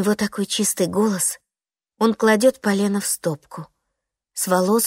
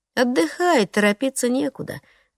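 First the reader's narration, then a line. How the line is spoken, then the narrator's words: Brisk, indifferent. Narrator (Russian): говорит бодро и равнодушно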